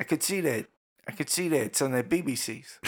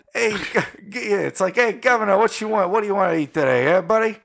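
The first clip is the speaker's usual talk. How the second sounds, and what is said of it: Butler with a Jersey accent. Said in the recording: “With a Jersey accent?”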